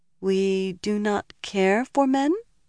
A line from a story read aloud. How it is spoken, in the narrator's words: murmured, as if puzzled